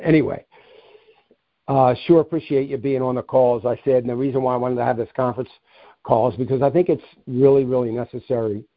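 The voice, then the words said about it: Strained, fading voice. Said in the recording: “I'm losing my voice. I was fine until I came on.”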